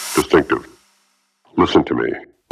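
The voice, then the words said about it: Distorted, deep disguised voice. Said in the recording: “The voice was distorted and deep, disguised like those crime shows trying to hide someone's identity”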